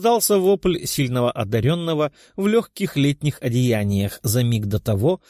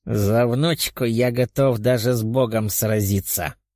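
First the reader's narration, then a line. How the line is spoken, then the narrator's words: Old man's growl. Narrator (Russian): рыкнул старик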